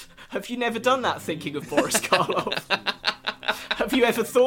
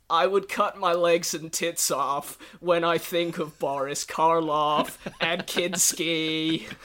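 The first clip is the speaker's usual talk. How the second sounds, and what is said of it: Imitates another person's voice. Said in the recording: “my best Lou Reed impression”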